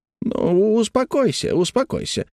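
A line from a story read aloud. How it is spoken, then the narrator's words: Flustered, soothing. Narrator (Russian): растерянно проговаривал Хэммонд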